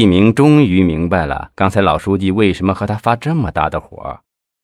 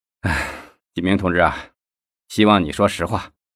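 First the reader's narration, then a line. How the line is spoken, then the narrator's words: Sighing. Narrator (Chinese): 赵东林叹了一口气说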